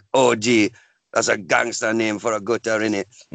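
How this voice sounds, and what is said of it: Put-on Jamaican accent. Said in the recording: “I accidentally did a cod Jamaican accent ... I'm going to do the accent”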